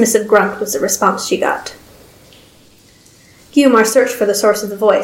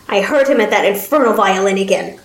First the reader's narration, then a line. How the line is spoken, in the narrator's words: the old man spat